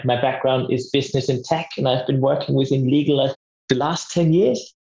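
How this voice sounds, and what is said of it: Austrian accent. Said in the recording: “As you probably know from my accent as well, and the listeners might see that I'm from Austria originally.”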